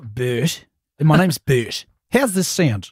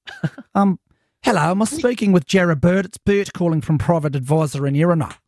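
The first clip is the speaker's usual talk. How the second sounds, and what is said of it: Put-on New Zealand accent. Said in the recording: “we'll need a bit of an accent. Why don't you try a Kiwi one? ... That's good.”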